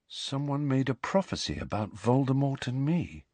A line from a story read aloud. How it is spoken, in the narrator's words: he said quietly